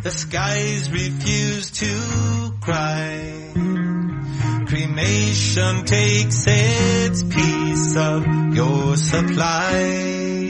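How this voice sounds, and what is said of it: Sung in Irish pirate accent. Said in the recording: “sings like an Irish pirate ... Will you sing it in the same accent? ... I've been to Ireland one time. ... So I kind of remember how they talk.”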